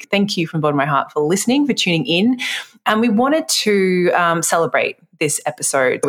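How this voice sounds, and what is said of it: Nasal accent. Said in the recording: “my lovely nasal accent”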